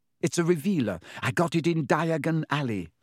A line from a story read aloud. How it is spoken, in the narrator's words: said